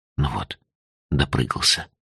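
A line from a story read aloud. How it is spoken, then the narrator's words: Quiet, to oneself. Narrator (Russian): тихо сказал себе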